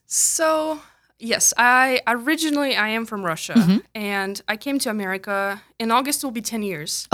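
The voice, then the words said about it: Slight foreign accent. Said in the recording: “there's a little bit of an accent to your voice”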